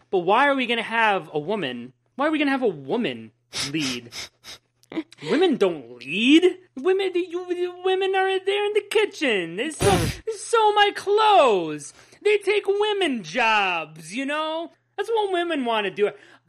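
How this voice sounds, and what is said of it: Sarcastic mock-serious delivery. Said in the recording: “I'm being sarcastic. I'm being sarcastic ... That's all a joke.”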